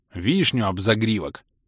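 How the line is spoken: Angry clumsy blurt. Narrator (Russian): бухнул я, зло и неуклюже

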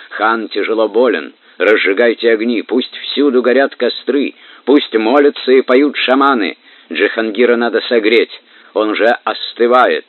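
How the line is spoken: Breathless shout. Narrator (Russian): монгольский всадник, задыхаясь, крикнул

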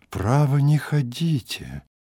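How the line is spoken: Sighing. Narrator (Russian): Альберт вздохнул

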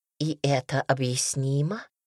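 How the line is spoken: Soft, gentle. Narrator (Russian): мягко заметила матушка

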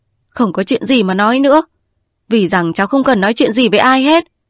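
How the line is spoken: Angry, frowning. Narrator (Vietnamese): Tử Thị lúc tức giận, cau mặt mà bảo rằng

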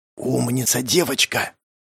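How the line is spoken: Whisper. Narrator (Russian): прошептал я

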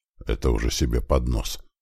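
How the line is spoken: Muttered. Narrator (Russian): пробормотал

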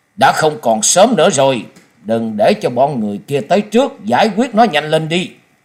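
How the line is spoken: Harsh commanding voice. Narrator (Vietnamese): Một trong 2 gã đột nhiên gằn giọng ra lệnh

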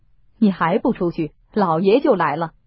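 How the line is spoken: Smiling. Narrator (Chinese): 贾珍向他笑道

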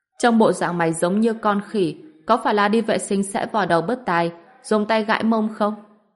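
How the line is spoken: Mocking loud laughter. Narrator (Vietnamese): Ngao Trấn ở bên cạnh cười lớn và nói

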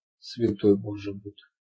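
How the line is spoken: Muttering. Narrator (Russian): обормотал Туки

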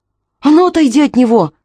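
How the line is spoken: Shouting. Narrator (Russian): крикнула Аманда

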